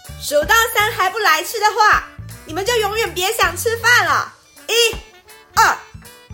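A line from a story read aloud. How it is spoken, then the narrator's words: Furious shout. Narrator (Chinese): 林妈妈马上怒火中烧的大喊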